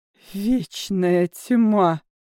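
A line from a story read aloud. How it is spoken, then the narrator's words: Witch hissing. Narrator (Russian): колдунья зашипела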